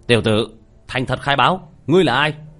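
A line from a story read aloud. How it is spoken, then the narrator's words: Stern shout. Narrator (Vietnamese): nghiêm nghị quát lên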